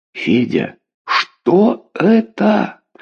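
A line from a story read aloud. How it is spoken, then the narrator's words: Barely audible moan. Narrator (Russian): простонала еле слышно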